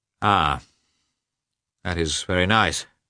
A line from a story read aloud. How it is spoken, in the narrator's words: he said gloomily